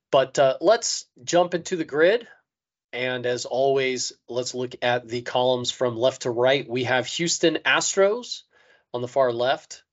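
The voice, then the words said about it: Slightly hoarse voice. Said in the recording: “still recovering from getting sick this weekend. So my voice is still a little hoarsey.”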